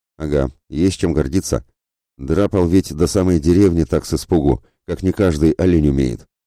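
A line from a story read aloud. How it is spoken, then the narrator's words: Venomous snort, middle-aged man. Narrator (Russian): хмыкнул ядовито Ледомил, мужчина лет 40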